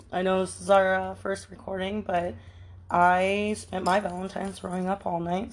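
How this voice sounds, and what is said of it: Hoarse, strained voice. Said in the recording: “excuse my voice ... it sounds like I got choked out”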